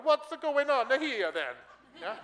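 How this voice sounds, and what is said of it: Weak put-on Italian accent. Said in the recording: “an Englishman trying to do an Italian accent, but it's not pretty, but I'll do my best”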